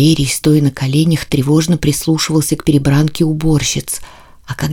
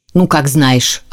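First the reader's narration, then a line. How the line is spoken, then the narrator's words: Cleaning woman grumbling angrily. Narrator (Russian): сердито пробурчала уборщица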